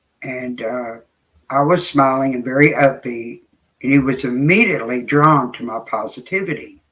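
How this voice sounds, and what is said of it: Southern US accent. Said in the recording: “I had an accent. You know, I am Southern”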